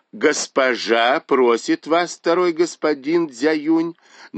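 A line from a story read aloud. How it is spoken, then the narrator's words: Deliberately loud. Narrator (Russian): нарочито громко сказала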